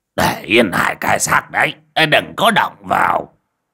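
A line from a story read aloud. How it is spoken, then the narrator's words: Sudden shout. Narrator (Vietnamese): Bỗng nhiên một người quát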